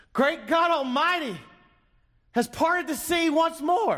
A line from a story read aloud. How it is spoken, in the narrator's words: An elderly woman shouted